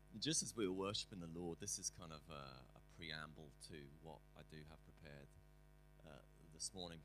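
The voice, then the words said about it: Voice altered by a cold. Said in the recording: “my voice is slightly different. I'm suffering from a cold.”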